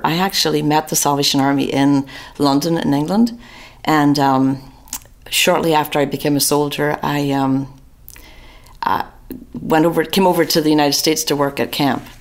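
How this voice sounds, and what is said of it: Northern Irish accent. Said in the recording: “your accent doesn't sound like it's from Atlanta, Georgia ... From Northern Ireland.”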